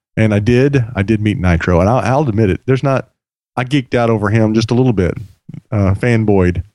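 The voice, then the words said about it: Slightly raspy voice. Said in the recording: “my voice is still a little raspy”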